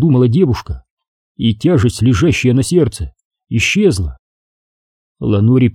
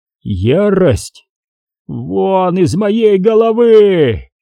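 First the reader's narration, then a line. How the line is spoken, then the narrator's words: Roar. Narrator (Russian): взревел он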